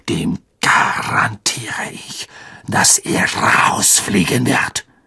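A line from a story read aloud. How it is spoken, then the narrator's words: Hissing. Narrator (German): zischte Snape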